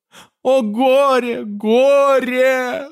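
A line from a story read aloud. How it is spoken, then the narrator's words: Sobbing. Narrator (Russian): рыдала она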